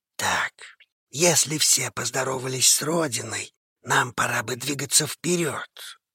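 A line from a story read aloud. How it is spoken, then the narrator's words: Quiet reminder. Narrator (Russian): негромко напомнил Конор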